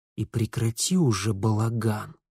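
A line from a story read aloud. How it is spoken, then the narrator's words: Curt remark. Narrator (Russian): Бросил он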